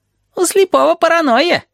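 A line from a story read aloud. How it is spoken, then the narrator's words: Giggling. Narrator (Russian): хихикает Табаки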